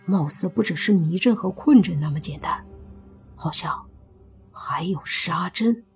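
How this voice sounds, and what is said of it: Quiet, hushed line of dialogue. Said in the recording (Chinese): “小声的说”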